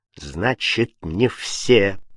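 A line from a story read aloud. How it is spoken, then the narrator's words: Restrained angry mutter. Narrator (Russian): процедил Фабель, стараясь не давать волю гневу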